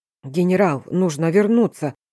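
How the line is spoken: Hoarse, muffled by visor. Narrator (Russian): Сипло из-под забрала прозвучал голос

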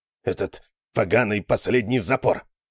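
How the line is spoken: Growling. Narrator (Russian): прорычал Талуф

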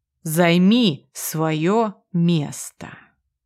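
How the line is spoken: Slow, condescending repetition. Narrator (Russian): произносит еще раз, медленно, словно я и правда полная дура

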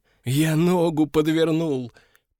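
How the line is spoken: Nervous moan. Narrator (Russian): простонал, нервно

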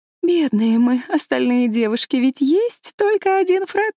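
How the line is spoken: Laughing. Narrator (Russian): рассмеялась Энн

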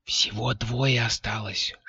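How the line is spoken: Whispered report. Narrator (Russian): шепотом доложила

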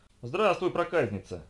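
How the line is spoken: Delighted chuckle. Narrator (Russian): хохотнул Толкер, которому страшно понравилось общаться с этим роботом

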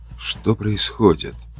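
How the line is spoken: Whispering. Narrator (Russian): Прошептал я

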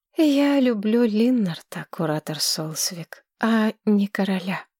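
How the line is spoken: Calm reply. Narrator (Russian): спокойно ответила Маргарет

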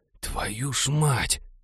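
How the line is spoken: Barely audible gasp. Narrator (Russian): чуть слышно охнул сосед Молли

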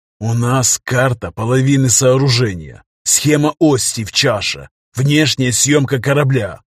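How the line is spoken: Hissing. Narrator (Russian): прошипел он

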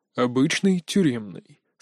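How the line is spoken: Calm reply. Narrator (Russian): спокойно ответил Мун Джин

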